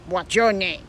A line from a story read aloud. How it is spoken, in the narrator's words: Finally, the superior appeared and curtly, in a standoffish way, asked